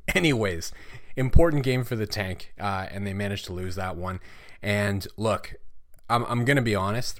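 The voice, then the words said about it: Hoarse, fading voice. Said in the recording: “Still losing my voice.”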